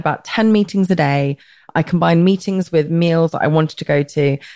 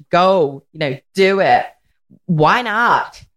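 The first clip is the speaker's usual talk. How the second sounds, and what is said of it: Bad put-on American accent. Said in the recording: “The worst American accent ever. ... Terrible accent.”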